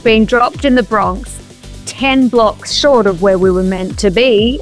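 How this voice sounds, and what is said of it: Strong Australian accent. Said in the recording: “you think my accent is strong now? Whoa, my Aussie accent back then.”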